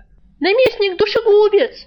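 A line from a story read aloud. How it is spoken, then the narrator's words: Thin shrill squeal. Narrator (Russian): тонко взвизгнул кто-то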